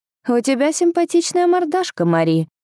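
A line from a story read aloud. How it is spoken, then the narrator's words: Snide. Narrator (Russian): ехидно продолжил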